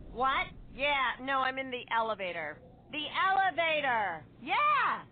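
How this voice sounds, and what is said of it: Impression of someone on a phone call. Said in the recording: “my impression of a person having a phone conversation in the elevator”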